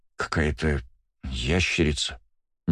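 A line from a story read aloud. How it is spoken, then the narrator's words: Uncertain mumble. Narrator (Russian): неуверенно пробормотал Валь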